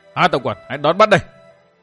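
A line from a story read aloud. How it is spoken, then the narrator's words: Raised voice. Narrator (Vietnamese): Độc Cô Thanh Tùng đắc cao giọng tiếp nói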